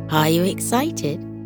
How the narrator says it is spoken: she asked him

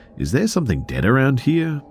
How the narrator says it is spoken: my cousin makes an off-the-cuff sort of comment asking, sort of sarcastically

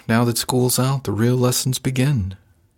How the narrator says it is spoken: His voice stayed playful, but his tone shifted as he observed

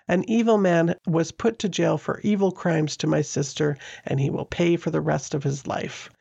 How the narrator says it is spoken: Donna's brother Derek left the courtroom pumping his fists and shouting

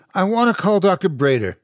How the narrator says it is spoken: he said excitedly

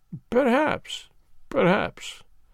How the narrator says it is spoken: murmured my friend

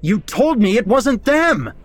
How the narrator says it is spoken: I yelled

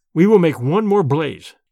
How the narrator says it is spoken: I said firmly

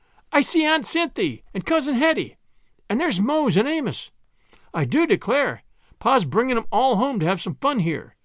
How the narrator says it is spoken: cried Prue, as she recognized one familiar face after another

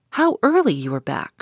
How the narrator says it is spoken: said

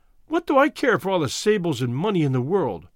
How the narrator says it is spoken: cried

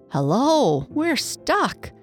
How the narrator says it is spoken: cried the man

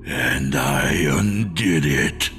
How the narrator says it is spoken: the creature growled

